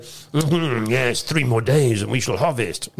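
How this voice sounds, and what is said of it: Put-on French accent. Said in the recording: “That's that was my um, French accent, in case you're wondering.”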